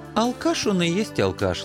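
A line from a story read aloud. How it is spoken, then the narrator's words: Warm, affectionate. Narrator (Russian): ласково улыбнулся Анцифер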